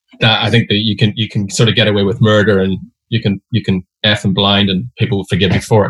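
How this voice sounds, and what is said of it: Irish accent. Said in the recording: “your Irishness ... the Irish accent helps when telling a story”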